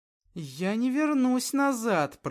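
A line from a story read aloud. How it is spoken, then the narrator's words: Through gritted teeth. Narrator (Russian): процедила сквозь зубы Эльвира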